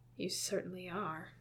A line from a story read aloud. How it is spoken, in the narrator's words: Arthur swears he hears Eames mutter